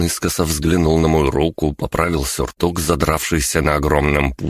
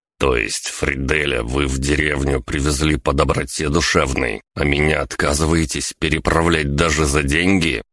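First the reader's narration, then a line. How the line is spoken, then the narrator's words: Angry clipped words. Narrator (Russian): Сердито отчеканил я на автомате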